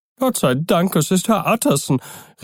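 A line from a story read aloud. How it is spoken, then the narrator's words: Old woman calling. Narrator (German): rief die alte Köchin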